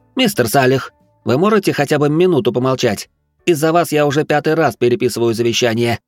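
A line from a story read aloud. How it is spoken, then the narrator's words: Irritated snapping. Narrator (Russian): огрызнулся молодой человек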